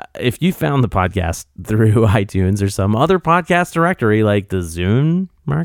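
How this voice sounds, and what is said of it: Usual voice. Nothing is said of it.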